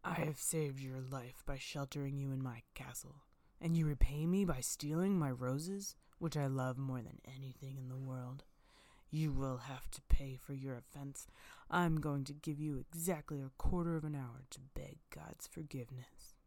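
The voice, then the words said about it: Terrible, menacing beast voice. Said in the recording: “said the beast in a terrible voice.”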